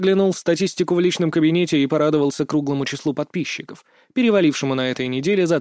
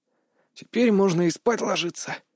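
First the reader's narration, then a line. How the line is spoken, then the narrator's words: Weary stretching voice. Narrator (Russian): устало потянулся я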